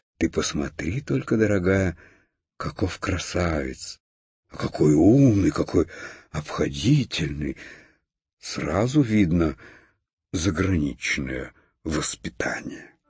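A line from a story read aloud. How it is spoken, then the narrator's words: Delighted whisper. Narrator (Russian): Хрустальная ваза в восторге шептала своей подруге фарфоровой конфетнице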